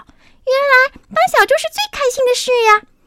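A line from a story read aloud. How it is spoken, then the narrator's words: Happy shouting. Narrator (Chinese): 小猪高兴的大叫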